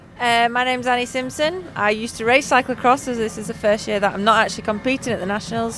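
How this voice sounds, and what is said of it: Yorkshire accent. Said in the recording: “Yorkshire, near Leeds... I should have guessed from the accent”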